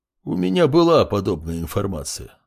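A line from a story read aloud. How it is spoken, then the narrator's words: Calm. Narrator (Russian): спокойно произнес ректор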